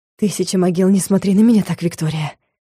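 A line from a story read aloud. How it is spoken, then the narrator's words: Hoarse whisper. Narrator (Russian): хриплым голосом прошептал магистр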